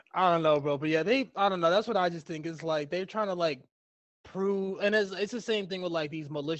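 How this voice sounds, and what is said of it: Usual voice. Nothing is said of it.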